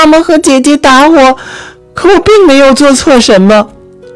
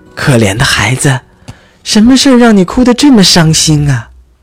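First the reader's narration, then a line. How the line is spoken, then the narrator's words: Soft gentle question. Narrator (Chinese): 轻声问道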